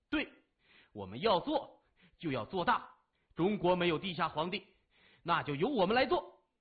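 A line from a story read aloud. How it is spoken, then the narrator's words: Shouting in unison. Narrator (Chinese): 齐声大叫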